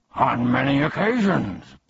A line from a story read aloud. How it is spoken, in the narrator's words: barked Tuck